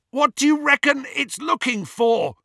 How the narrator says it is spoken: Ron yelled as they flew further and further north

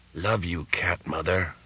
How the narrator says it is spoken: whispered the Panther Modern's link man

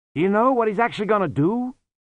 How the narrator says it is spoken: Susan shouted back

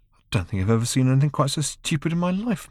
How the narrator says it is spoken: muttered Ford to himself

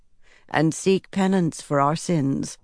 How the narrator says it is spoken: Mora said in her soft, matronly voice

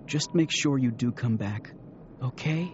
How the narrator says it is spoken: She whispered close to his ear

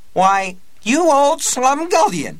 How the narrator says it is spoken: she cried

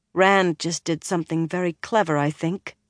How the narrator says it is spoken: Egwene said in a flat voice

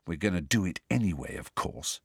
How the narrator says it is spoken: he said quietly

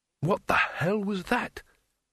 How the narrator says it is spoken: The wizard whispered

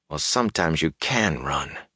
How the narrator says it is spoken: he muttered

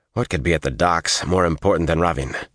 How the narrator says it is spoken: growled

